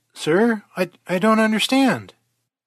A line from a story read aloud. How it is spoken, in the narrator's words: stammered Surge